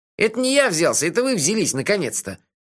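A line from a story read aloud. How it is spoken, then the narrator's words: Snorting. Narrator (Russian): фыркнул Мелифара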